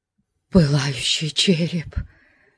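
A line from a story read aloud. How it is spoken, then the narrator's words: Nervous crowd murmur. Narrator (Russian): Прокатился судорожный шепоток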